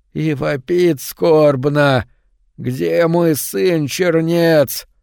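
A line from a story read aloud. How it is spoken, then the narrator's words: Extremely hoarse voice. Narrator (Russian): Голос такой хриплый, что и не голос вообще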